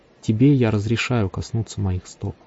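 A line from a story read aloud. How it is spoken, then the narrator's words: Quiet, smiling. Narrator (Russian): Ослепительно улыбнувшись, он негромко сказал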